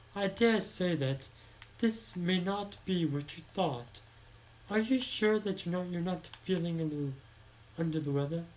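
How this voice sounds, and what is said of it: Put-on British accent. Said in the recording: “with a kind of British accent”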